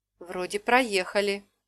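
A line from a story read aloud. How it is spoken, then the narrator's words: Uncertain. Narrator (Russian): неуверенно сказал Лив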